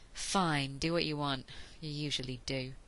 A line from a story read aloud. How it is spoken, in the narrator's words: he finished with a sigh